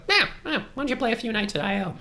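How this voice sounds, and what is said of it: Imitates another person's voice. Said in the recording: “That's a good Sharna impression.”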